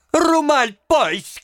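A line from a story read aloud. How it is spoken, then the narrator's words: Shouting. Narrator (Russian): кричала она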